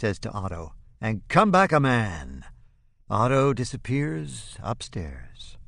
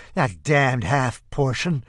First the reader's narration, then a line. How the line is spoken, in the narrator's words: she wheezes